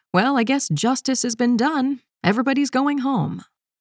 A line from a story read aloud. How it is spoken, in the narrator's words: she shouted